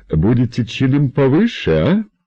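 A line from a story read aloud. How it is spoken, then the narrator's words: Giggling. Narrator (Russian): Бесовочка снова хихикнула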